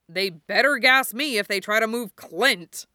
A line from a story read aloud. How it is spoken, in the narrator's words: Bucky growled